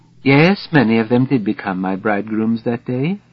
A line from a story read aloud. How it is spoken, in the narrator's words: she whispers